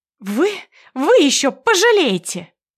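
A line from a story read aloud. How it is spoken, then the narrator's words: Hysterical shamed shriek. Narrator (Russian): Истерично завизжала опозоренная Света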